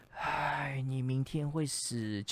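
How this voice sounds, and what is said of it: Low, quiet voice. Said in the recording (Chinese): “用低小声的声音说”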